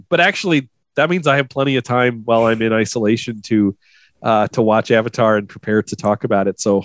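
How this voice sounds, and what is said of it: Sick-sounding voice. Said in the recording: “If you can hear from my voice, I am sick right now.”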